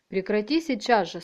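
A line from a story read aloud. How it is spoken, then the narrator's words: Stern. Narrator (Russian): строго сказал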